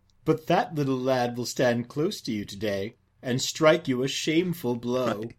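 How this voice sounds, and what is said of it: Silly character voice. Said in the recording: “do I get to do your silly voice?”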